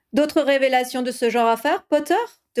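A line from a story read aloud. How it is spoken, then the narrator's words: Amused question. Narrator (French): demanda Fawcett d'une voix amusée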